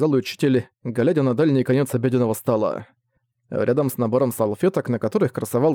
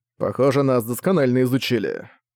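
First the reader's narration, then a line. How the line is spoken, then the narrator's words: Grumbled. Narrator (Russian): проворчал учитель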